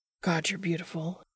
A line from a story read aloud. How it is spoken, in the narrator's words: he mutters